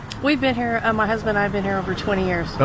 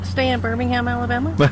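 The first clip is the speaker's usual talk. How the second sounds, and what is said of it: Imitated Alabama accent. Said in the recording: “Was that your imitation of an Alabama accent?”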